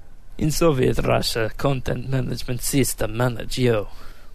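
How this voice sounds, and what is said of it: Poor mock Russian accent. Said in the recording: “Your Russian accent is very, very poor.”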